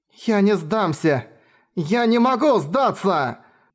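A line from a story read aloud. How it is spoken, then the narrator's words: Shouting, convincing herself. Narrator (Russian): закричала Тина, больше убеждая себя, чем отвечая на вопрос Энкиду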